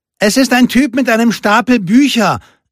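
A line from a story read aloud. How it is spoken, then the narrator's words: Calling into hut. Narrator (German): rief Lupe in die Hütte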